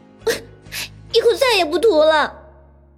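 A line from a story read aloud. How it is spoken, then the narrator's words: Embarrassed anger. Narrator (Chinese): 杨木恼羞成怒道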